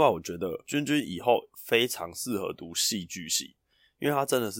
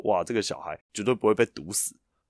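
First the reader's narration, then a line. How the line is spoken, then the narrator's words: Laughing. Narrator (Chinese): 老师笑说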